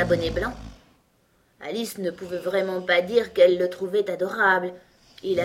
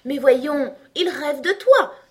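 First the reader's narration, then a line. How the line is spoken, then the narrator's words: Triumphant exclamation. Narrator (French): s'exclama Blanc Bonnet d'un air de triomphe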